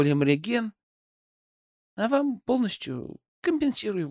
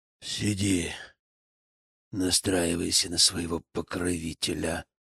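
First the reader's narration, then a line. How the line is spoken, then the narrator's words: Hiss. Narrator (Russian): прошипел он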